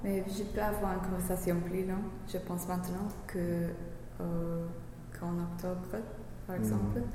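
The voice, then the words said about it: English accent speaking French. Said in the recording (French): “c'est ton accent qui te gêne. Tu penses que c'est trop anglais? ... Oui, je pense.”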